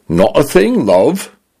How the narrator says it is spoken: her condo said in a male British voice that leaned toward a cocky accent

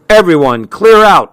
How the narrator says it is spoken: he shouted

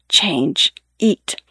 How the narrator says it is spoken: he whispers

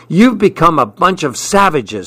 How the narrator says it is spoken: she shouted

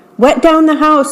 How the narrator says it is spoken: Uncle Charles yelled

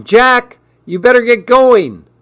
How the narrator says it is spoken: Mom yelled again

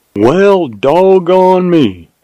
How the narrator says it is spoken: exclaimed Jim in mild surprise

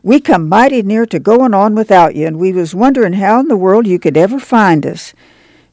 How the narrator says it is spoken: she cried

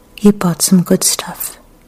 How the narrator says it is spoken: Kikuko said in a gentle voice that didn't betray any emotion

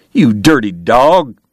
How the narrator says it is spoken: James cried

